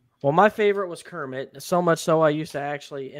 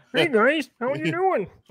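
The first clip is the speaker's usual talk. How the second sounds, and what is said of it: Kermit the Frog impression. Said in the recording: “imitate him ... You actually do a good Kermit impression. ... That is like not bad. That's not bad. ... you could do Kermit the Frog.”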